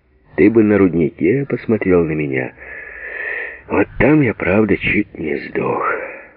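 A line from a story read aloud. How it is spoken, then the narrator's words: Husky, laughing. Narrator (Russian): выдохнул он хрипловатым, смеющимся голосом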